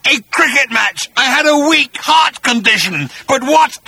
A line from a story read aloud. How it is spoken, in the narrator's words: roared Agrajack